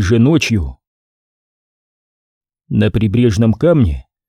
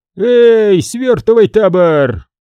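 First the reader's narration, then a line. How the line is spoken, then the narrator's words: Drunken yell. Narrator (Russian): пьяно заорал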